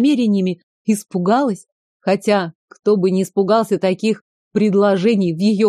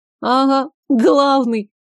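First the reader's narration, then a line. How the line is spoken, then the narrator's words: Giggling. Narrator (Russian): хихикнула Гордеева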